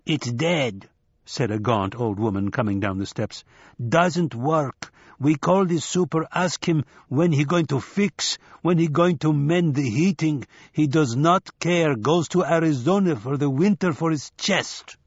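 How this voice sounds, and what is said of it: Thick Eastern European accent. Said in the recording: “Her accent was thick, Eastern European”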